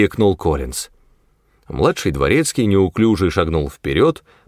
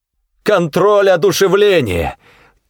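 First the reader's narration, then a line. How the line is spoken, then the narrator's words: Triumphant shout. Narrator (Russian): Торжествующе выкрикнул Коллинз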